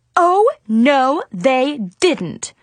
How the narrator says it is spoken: Mom yelled

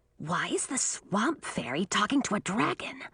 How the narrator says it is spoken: a voice asked in a fierce whisper

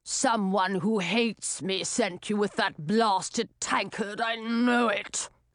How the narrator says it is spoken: he growled

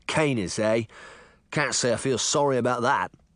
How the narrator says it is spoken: Jack growled

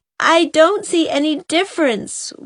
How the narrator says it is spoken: wailed Di

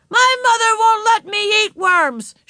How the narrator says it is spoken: shouted a little boy

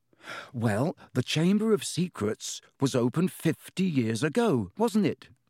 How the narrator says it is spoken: he said

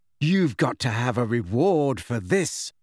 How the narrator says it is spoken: said Mrs

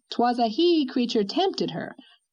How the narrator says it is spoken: retorted Miss Cornelia triumphantly

